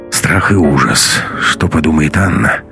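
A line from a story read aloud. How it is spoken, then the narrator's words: Sighing. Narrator (Russian): вздохнул Матвей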